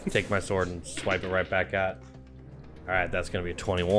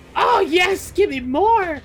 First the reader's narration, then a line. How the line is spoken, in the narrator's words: it screams that out